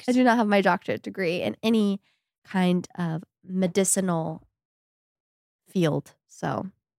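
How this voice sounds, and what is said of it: Nasal congested voice. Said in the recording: “I don't have that. I have the nasally one.”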